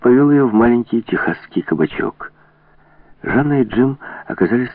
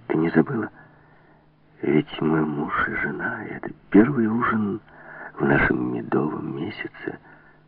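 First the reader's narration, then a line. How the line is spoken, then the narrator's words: Shy, tender whisper. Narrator (Russian): Он с робкой нежностью во взгляде нагнулся к ней и прошептал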